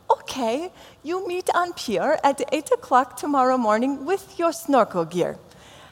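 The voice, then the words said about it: Imitated vague foreign accent. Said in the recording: “I'm not sure what nationality she was, and you're not going to know either when you hear my accent, but I know she had an accent, so I just have to do one”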